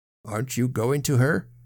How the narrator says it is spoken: asked Sir John sternly

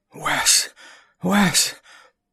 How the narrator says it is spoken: Randall whispered

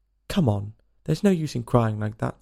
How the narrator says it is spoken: said Alice to herself rather sharply

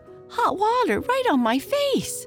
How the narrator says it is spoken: spluttered Marie

